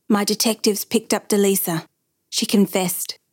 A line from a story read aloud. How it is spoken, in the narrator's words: Santucci whispered to Hal Fond